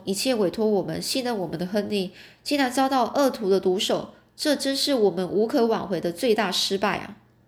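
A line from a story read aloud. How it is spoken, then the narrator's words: Deep sigh. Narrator (Chinese): 福尔摩斯深深叹了一口气，说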